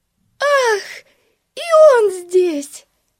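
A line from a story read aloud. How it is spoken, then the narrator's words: Joyful exclamation. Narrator (Russian): радостно воскликнула Бетси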